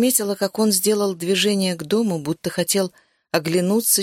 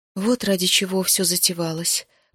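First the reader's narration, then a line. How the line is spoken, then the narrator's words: Muttered. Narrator (Russian): пробормотала я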